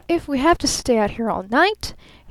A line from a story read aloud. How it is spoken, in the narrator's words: he repeated wildly